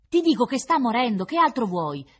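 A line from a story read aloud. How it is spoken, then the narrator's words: Distant shout. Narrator (Italian): gridava qualcuno dall'altra parte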